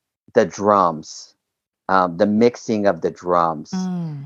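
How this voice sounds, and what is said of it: Usual voice. Nothing is said of it.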